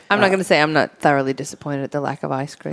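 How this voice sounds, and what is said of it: Australian accent. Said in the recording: “Is from Australia, if those who can't tell by the accent.”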